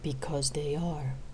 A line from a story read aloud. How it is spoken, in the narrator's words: replied sadly